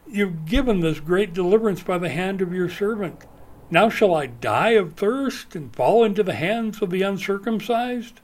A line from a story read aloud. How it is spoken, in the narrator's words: cried out to the Lord and said